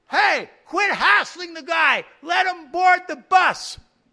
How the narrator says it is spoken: So I said quite loudly

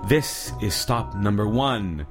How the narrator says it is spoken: the old hissed

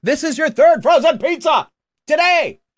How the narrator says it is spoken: it loudly announced

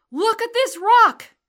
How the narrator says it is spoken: I cried

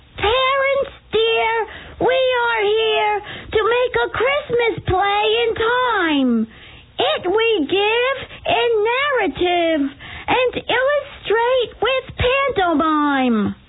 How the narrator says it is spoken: Jackie Sauerfeld, the prettiest boy in first grade, in a high voice sang out

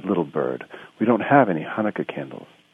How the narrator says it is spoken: Her mother sighed

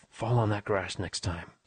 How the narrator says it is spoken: praying under my breath

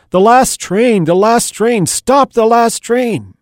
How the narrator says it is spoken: he began shouting at the top of his lungs

